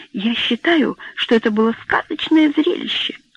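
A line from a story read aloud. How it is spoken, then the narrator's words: Breathless exhale. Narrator (Russian): выдохнула она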